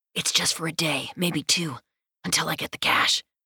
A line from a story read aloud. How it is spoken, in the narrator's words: he whispers